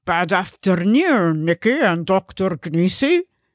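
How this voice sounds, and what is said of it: Strong made-up foreign accent. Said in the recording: “who has a strong Exian accent”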